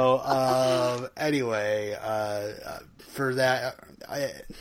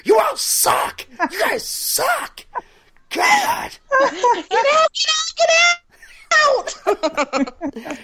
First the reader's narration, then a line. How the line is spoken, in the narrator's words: Celeste, she's screaming at her dancers